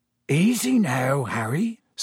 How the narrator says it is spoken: said Hagrid quietly

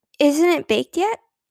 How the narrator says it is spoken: exclaimed Beezus

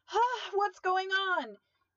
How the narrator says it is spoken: He yelled, trying to free himself of her grasp

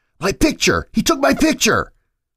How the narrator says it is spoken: Josh kept yelling

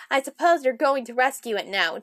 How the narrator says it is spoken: Thomas chuckled

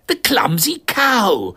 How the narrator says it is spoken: I exclaimed without thinking

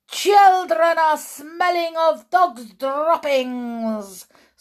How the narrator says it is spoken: screeched the Grand High Witch

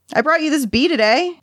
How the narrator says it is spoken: Denna said excitedly

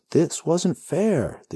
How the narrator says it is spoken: the hero yells

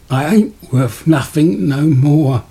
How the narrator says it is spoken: Brood whimpered

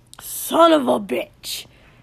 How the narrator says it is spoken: Kotsky bellowed

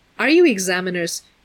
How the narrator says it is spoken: the boy asked a little anxiously

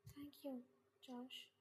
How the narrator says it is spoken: she said, smiling softly

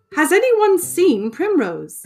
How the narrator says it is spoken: shouted Lord Woodmouse

